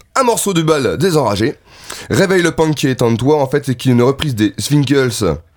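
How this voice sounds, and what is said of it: Put-on accent. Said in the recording (French): “Pourquoi tu prends l'accent de Zwinkels? Je prends l'accent que je veux”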